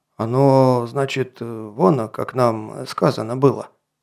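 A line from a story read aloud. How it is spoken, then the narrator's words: Mumbling. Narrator (Russian): промямлил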